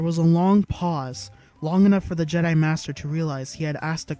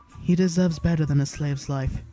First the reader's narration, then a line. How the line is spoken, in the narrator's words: she said quietly